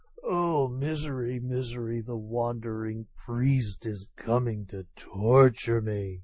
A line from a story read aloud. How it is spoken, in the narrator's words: undone by such ceaseless vexation, Tokubei fell ill, and kept muttering